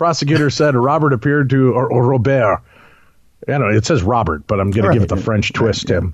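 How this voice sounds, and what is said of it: Usual voice. Nothing is said of it.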